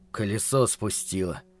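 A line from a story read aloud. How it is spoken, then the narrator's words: Grumbling. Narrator (Russian): проворчал Питер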